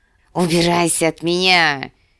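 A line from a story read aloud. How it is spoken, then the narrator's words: Hissing. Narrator (Russian): прошипел Визерис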